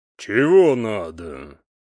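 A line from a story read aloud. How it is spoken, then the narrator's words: Deep bass question. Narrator (Russian): неожиданно густым басом спросил он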